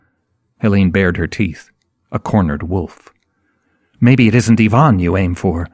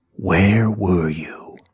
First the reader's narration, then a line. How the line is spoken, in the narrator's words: He whispered